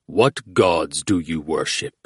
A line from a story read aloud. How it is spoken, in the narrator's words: The Javadi's sudden, rumbled question